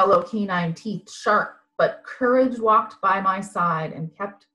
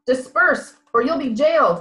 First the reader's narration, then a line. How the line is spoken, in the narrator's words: the police shouted